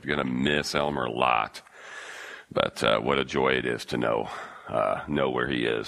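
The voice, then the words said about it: Rough, sick-sounding voice. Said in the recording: “Excuse my voice too. I'm catching a healing... you fight what I'm fighting for a couple days. I start to sound a little bit more like my dad”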